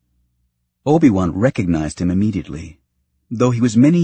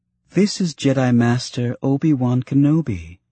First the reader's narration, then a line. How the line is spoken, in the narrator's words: Ton Wee said, her tone lighter, obviously an attempt to relieve some of the palpable tension